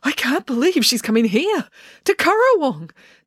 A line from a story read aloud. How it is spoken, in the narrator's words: Dad gushed excitedly